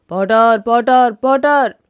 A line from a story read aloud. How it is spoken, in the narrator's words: The crow approached the potter, shouting loudly